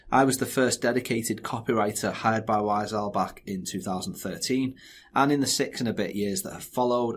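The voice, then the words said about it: Northwest England accent. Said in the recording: “this strange accent comes from, we're based here in the northwest of England, just outside Liverpool ... my dodgy accent”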